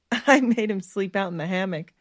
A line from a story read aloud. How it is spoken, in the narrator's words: Stephanie said, laughing